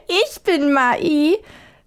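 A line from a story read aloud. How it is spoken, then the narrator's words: Old woman replying, laughing. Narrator (German): erwiderte die Alte lachend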